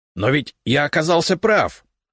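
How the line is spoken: Excited exclamation. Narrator (Russian): азартно воскликнула левая голова

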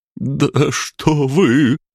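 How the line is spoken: Babbling timidly. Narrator (Russian): пролепетал повар

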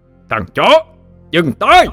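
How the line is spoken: Deafening roar. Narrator (Vietnamese): Tiếng gầm vang dội trong mật thất làm cho những người còn lại hoa mắt chóng mặt, màng nhĩ như bị xé toạc đi

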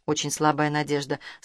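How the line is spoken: Quiet speech. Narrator (Russian): сказал тихо Шевцов

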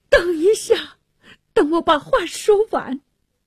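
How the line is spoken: Pleading. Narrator (Chinese): 当那沙尔 哀求着说

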